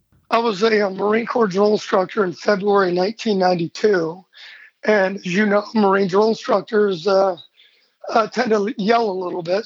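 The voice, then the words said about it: Raspy, gravelly voice. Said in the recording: “your raspy voice ... it's always a bit raspy”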